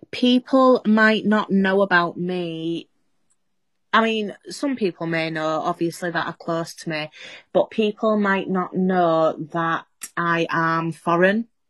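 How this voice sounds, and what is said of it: Northern English accent, Yorkshire-Scouse mix. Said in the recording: “I'd say broad Yorkshire accent, but then it's not broad Yorkshire anymore. Everybody says I sound half Scouse now”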